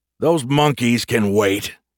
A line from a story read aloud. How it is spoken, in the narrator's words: Grumpy snapped